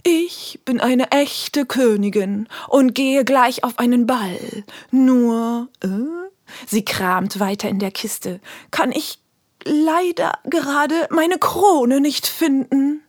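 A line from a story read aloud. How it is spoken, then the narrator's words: Slow, smoky voice. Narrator (German): Mit rauchiger Stimme sagt sie langsam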